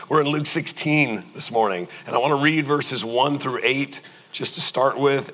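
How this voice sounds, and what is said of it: Strained, fading voice. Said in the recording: “I was a little under the weather this week ... I am losing my voice.”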